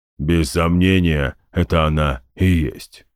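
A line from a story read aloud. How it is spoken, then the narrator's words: Booming. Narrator (Russian): прогудел Гундахар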